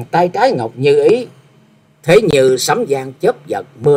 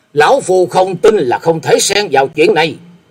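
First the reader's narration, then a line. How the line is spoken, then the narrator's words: Breathless loud shout. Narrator (Vietnamese): Sau một lúc thở dốc, hét lên một tiếng lớn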